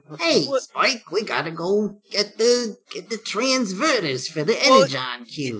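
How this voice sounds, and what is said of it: Slight Jersey accent, cartoon robot voice. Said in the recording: “He sounded like basically all of the Transformers from G1, just a slight Jersey accent”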